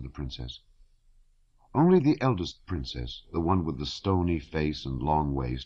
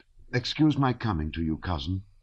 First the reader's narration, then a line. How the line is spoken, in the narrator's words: she said in a reproachful and agitated voice